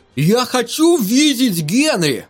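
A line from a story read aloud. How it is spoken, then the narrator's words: Loud call. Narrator (Russian): он громко позвал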